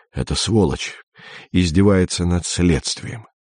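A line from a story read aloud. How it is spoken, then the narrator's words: Through teeth, trembling. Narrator (Russian): сказал Андрей сквозь зубы, стараясь унять дрожь во всем теле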